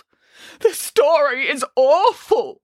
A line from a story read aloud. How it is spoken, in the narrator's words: wailed Boris